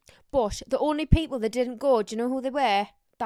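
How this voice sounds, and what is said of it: Weak put-on Geordie accent. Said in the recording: “That wasn't a very good Geordie accent. ... Sometimes I'm good. Sometimes I'm shit.”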